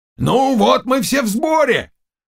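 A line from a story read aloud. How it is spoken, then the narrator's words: Exclamation. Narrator (Russian): воскликнул пан Заглоба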